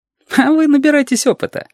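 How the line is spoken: Frivolous giggle. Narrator (Russian): легкомысленно хихикнул Сашка

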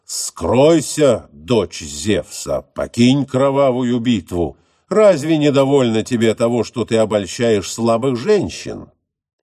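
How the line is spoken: Menacing shout. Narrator (Russian): Диомед же грозно крикнул богине Афродите

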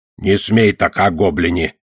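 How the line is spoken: Grumbling. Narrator (Russian): проворчал Одноглазый

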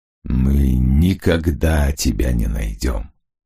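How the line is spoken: Quiet. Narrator (Russian): тихо сказал он ей

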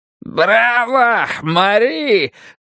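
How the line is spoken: Yell. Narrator (Russian): завопил Давид

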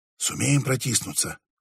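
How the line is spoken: Whisper. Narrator (Russian): прошептал он

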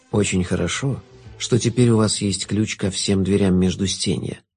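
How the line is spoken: Soft remark. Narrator (Russian): мягко заметил Шут

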